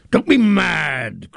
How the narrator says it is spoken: cried Potiphar scornfully

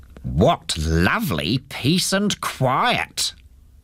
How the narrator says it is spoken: he said in a cross voice

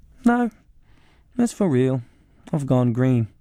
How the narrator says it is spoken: Mum replied calmly

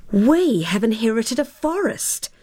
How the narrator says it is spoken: cried Tara, copying her father's astonished cry

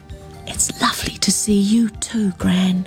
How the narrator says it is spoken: she whispered

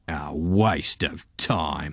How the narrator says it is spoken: they muttered

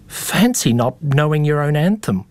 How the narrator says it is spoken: they exclaimed a little too loudly

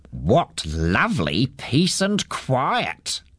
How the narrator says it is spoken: he said in a cross voice

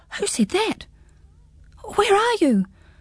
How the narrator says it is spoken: gasped Pins, staring about in bewilderment

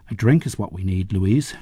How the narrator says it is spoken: Schmidt said

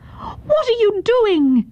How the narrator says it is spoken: Yun Ok cried in anger

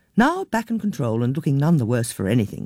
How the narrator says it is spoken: she said cheerfully

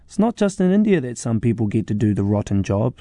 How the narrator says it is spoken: she often says

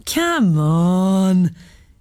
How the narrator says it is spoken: Hema giggled

